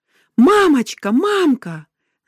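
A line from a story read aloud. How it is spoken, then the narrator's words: Older child screaming. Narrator (Russian): закричал старший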